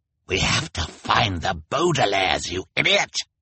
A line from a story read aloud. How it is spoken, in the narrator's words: Olaf snarled